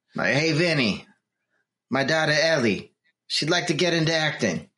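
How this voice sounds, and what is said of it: Bad Italian mobster accent. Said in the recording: “That was supposed to be Italian ... I'm going to go with vague mobster.”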